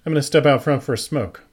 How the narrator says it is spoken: said, my voice quiet

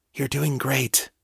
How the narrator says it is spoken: she whispered

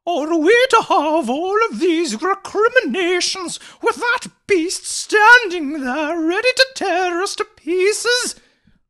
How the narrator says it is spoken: wailed Mavis indignantly

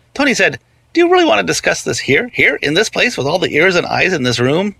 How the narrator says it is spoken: Rehnquist laughed and laughed and laughed

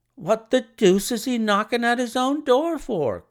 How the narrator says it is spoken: cried the clerk

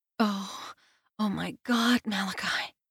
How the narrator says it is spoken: she moans

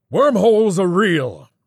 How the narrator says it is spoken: the old man sputtered

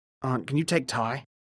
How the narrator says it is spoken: Syra murmured to the short-haired woman next to him

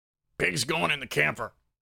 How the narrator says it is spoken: he grunted

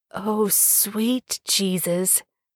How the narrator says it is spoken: Jared mutters

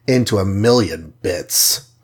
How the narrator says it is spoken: growled Hawkeye

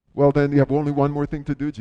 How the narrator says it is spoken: Jesus said

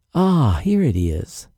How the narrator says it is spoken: Charlie sighed in relief

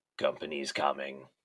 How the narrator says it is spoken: the little girl croaked

